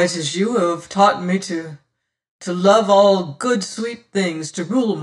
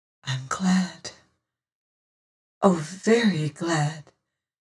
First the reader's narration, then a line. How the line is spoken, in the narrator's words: says she almost in a whisper